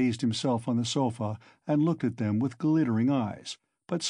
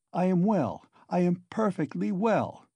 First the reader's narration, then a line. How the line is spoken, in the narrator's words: Raskolnikov declared positively and irritably